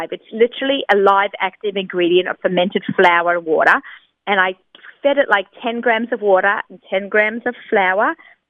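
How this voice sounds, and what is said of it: Speaks with an accent. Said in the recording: “I know it sounds really funny with my accent, right?”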